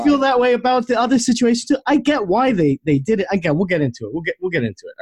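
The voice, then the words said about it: New York city accent. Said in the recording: “Calm your queen shit down around here ... This fucking city boy fucking accent shit. You got to drop it ... Dude, it comes out.”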